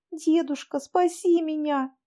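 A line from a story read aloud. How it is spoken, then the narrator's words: Sobbing child. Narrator (Russian): рыдала Поленька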